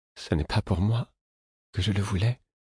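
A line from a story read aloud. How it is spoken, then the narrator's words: Murmured. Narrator (French): murmura-t-il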